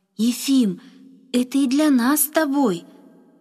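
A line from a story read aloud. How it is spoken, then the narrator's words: Exclamation. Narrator (Russian): воскликнул он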